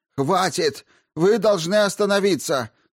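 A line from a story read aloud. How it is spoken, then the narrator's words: Shouting. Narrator (Russian): закричал распорядитель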